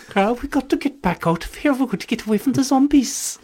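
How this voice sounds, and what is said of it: Good put-on Welsh accent. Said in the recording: “in a Welsh accent ... That's pretty good Welsh, isn't it? ... It's a pretty good Welshman.”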